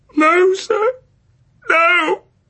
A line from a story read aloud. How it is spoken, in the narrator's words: sobbed Oliver